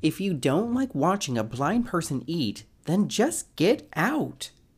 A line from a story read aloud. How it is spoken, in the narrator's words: Mary yells back